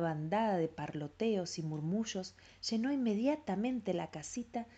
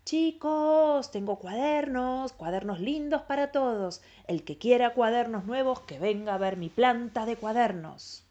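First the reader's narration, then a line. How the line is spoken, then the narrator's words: Shouted through cupped hands. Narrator (Spanish): haciendo bocina con sus enormes manos de tierra, gritó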